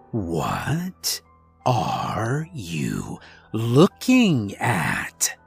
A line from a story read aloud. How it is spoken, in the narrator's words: There was an impatience to his voice, regardless of the fact that he spoke almost mockingly slowly